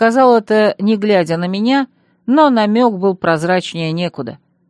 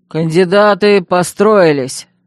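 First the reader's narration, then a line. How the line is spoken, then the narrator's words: Gleeful bark. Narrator (Russian): рявкнул Громила, с видимым удовольствием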